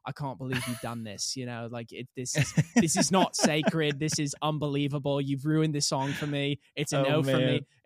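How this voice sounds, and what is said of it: Put-on condescending British accent. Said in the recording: “I don't know why I put on a British accent ... It's just very condescending”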